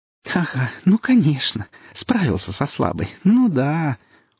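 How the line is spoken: Laughing speech. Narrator (Russian): сквозь смех

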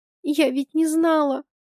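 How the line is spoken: Through tears. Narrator (Russian): произношу сквозь слезы

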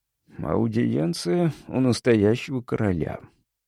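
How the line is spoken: Mumbling while chewing. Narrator (Russian): пробормотал я, разжевывая кусок курятины

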